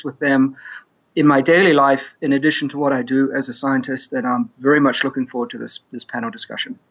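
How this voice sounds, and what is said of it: New Zealand accent. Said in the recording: “he comes from New Zealand. ... I have that Kiwi accent. ... when it sounds like a Kiwi”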